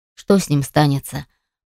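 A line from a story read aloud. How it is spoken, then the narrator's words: Grumbling. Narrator (Russian): проворчал Карим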